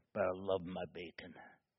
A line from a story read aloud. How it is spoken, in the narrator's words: very softly she'd say